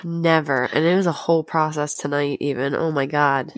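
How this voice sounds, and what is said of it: Sick, rough-sounding voice. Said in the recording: “is very sick ... Under the fucking weather ... I sound terrible, probably.”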